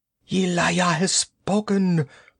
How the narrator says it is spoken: he cried in an exalted voice

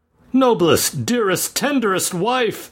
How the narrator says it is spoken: cried Aylmer rapturously

